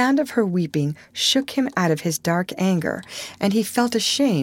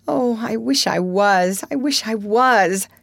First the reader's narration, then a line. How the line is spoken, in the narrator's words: sobbed